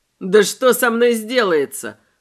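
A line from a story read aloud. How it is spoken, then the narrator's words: Snorting. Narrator (Russian): фыркнул Мэй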